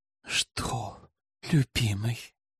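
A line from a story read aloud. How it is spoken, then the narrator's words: Breathy whisper. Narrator (Russian): С придыханием шепнула плутовка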